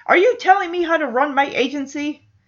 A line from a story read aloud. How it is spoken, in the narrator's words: shouts back